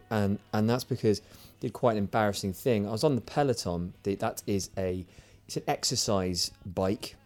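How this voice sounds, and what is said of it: Slightly croaky voice. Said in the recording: “my voice is slightly croaky today”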